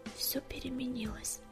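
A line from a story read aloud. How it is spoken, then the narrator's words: Despairing mutter. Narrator (Russian): в отчаянии пробормотал Огнегрив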